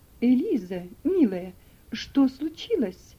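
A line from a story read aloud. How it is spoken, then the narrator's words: Worried exclamation. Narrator (Russian): воскликнула миссис Шельби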